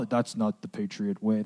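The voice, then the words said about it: Imitates another person's voice. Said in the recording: “my Bill Belichick impression”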